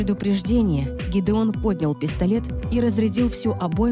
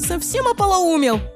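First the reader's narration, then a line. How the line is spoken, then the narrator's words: Angry yelling. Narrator (Russian): заорала Лиззи на брата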